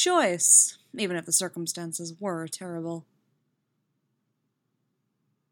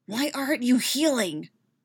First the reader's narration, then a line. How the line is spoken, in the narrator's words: he hisses